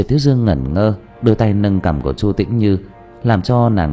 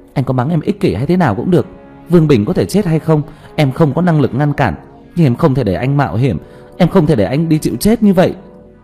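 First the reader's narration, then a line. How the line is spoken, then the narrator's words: Choked, sulky loud shout. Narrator (Vietnamese): Chu Tĩnh Như nhất thời nghẹn lời, giận dỗi hét ầm lên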